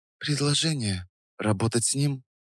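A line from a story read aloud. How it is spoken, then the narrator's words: Near-whisper question. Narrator (Russian): Тихо, почти шепотом спросила она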